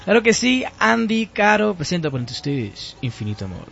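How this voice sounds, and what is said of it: Radio announcer voice. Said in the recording (Spanish): “Con voz de locutor y todo.”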